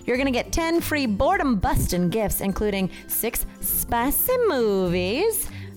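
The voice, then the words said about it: Odd put-on accent. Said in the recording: “I do not know what that accent was.”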